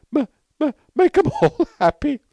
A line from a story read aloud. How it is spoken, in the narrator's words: sobbed McTurk